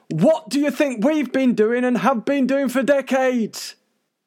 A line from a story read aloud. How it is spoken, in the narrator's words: organisations like MUFON can be heard screaming